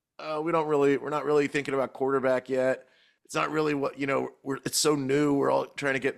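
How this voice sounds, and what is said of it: Imitates another person's voice. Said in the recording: “my Adam Peters impression.”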